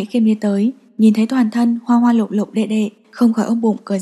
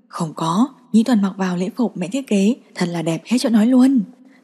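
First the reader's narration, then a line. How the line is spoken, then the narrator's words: Suppressing laughter. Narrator (Vietnamese): Cam Nhĩ Khiêm nén cười nói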